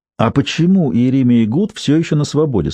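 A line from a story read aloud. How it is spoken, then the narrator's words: Plain. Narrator (Russian): спросила Джейн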